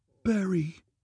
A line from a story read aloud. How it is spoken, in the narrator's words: That soft, familiar voice called to me urgently